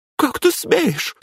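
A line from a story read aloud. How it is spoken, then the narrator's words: Squeak. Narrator (Russian): пискнула Светлана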